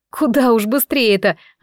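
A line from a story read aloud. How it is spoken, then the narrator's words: Laughing. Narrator (Russian): засмеялась я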